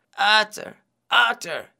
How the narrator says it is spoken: he cried

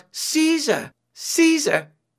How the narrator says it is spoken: She cried out

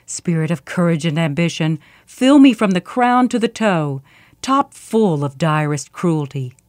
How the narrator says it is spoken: she growled to herself

